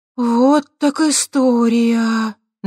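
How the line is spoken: Breathed out. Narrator (Russian): наконец выдохнула Светка

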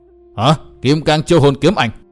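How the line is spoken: Startled exclamation. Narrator (Vietnamese): cả hai gã võ sư cùng thốt lên

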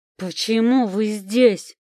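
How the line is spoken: Growled. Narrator (Russian): прорычал

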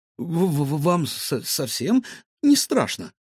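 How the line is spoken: Slight stammer. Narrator (Russian): слегка заикаясь, спросил Гаврош

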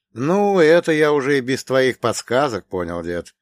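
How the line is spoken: Short laugh. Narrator (Russian): хохотнул я

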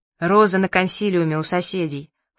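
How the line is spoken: Snorting. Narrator (Russian): фыркнул дядя Миша

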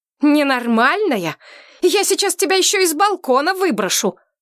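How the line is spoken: Yelling. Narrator (Russian): заорала я

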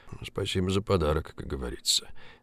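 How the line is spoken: Thoughtful mutter. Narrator (Russian): задумчиво пробормотал Поляковский

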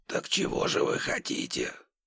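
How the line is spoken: Whisper. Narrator (Russian): прошептал он

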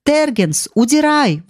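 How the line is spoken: Yelling. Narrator (Russian): вопил он

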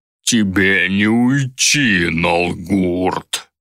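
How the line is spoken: Growling. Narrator (Russian): рычал пожиратель

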